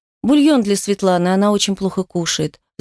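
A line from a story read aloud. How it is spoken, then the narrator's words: Woman sighing. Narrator (Russian): вздохнула женщина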